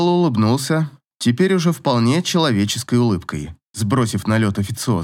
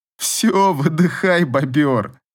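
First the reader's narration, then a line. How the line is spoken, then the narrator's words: Laughing. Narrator (Russian): снова рассмеялся Павел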